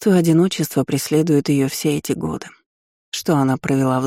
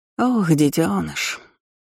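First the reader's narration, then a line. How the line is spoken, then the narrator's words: Sigh. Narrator (Russian): вздохнула Рамина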